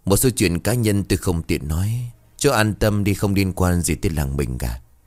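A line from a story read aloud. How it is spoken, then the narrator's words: Forced laugh, sighing. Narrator (Vietnamese): Thanh Hải cười gượng gịu, hắn thở dài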